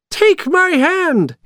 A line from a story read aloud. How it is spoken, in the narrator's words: he cried